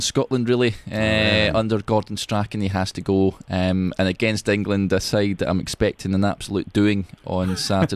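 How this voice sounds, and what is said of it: Strong Scottish accent. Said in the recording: “my accent ... It'll be ... accent. He's very Scottish ... He's very Scottish.”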